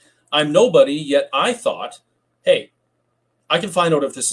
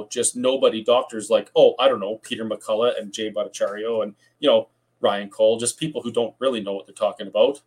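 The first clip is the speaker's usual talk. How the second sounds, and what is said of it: Sarcastic tone. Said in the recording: “That was sarcasm,”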